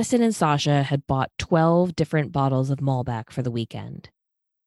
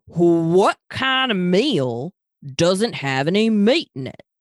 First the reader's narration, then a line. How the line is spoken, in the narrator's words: Talia asked in a Texan drawl